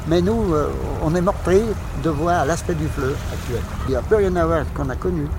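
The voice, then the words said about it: Regional French accent. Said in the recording (French): “on entend un accent”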